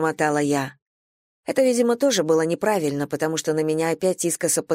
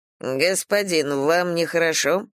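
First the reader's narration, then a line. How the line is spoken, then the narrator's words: Plain. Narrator (Russian): спросил Шуи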